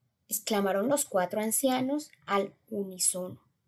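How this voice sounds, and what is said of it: Usual voice. Nothing is said of it.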